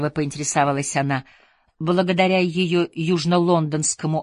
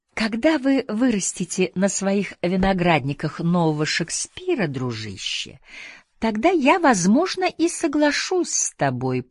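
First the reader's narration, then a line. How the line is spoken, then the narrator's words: Purring, warm yet condescending. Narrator (Russian): промурлыкала Летти с улыбкой, которая была столь же теплой, сколь и снисходительной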